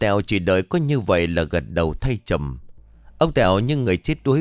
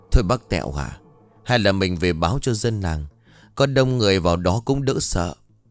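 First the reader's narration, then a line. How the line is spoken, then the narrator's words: Trembling, fearful voice. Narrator (Vietnamese): Bà run rẩy nói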